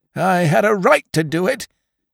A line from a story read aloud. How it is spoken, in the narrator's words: cried Jones